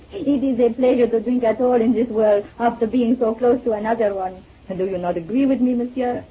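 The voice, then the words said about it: French accent in English. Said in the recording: “You're French, aren't you? ... Without that accent”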